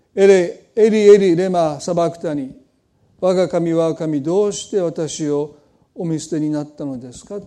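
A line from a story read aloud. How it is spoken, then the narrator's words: Anguished cry. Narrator (Japanese): という叫び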